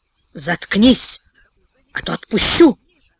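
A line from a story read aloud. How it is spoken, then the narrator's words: Quiet, through clenched teeth. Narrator (Russian): тихо сквозь зубы произнес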